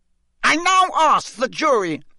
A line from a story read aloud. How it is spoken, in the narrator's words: shouted Mr